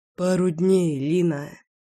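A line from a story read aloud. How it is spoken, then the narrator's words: Mumbling. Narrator (Russian): пробормотал Лёша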